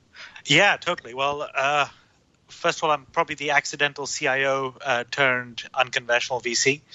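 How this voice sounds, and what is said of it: Slightly unusual mixed international accent. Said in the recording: “my slightly weird accent, ... a little bit of a citizen of the world”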